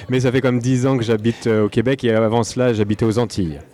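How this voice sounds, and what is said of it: French accent from France. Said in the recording (French): “je né en France, comme euh, mon accent peut le laisser sous-entendre.”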